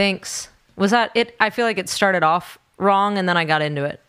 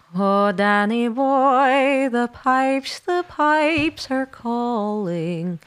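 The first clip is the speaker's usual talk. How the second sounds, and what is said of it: Sung fake Irish accent. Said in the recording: “Will you be singing with a fake Irish accent? ... It's pretty good.”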